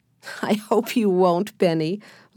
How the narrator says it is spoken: laughed Alice

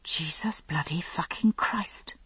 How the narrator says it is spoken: whispered, wishing there were something stronger I could say as a form of relief

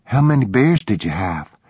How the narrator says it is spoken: She asked nervously

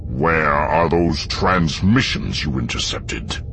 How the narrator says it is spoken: Vader had boomed, in that sonorous yet dreadful voice that death itself might use

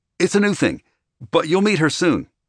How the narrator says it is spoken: Walker said happily

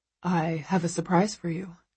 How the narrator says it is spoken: he murmurs

